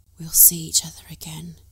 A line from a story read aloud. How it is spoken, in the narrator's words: he said breathlessly against her cheek